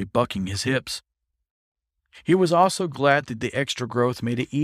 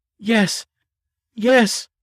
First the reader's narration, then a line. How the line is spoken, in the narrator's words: he panted